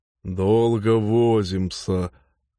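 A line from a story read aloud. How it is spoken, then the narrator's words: Grumbling. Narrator (Russian): Норл принялся ворчать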